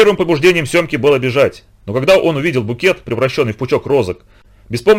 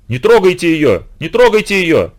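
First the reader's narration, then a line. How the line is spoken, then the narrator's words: Frenzied shouting. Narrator (Russian): В самозабвении кричал Семка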